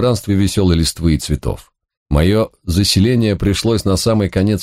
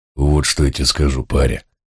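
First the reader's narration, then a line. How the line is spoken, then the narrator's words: Heavy sigh. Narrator (Russian): тяжело вздохнул он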